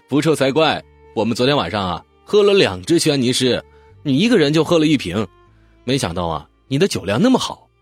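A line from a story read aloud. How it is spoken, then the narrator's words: Smiling. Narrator (Chinese): 笑笑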